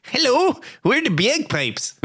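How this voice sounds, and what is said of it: Bad put-on Wisconsin accent. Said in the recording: “that's probably the worst accent. ... Cheesehead accent.”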